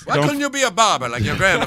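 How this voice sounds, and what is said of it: Put-on Italian accent. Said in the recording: “speak with an Italian accent”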